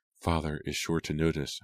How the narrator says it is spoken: Hannah whispered, doing her best to encourage Julia

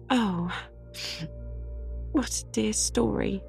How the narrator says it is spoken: sighed Anne, wiping away her tears

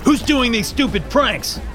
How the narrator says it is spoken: yelled Brian, a blond haired kid

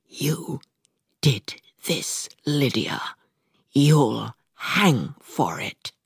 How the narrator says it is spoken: she whispered, with no slurring

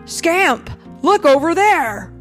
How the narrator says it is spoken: someone shout

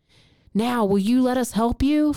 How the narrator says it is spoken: Fyodor yelled at the people

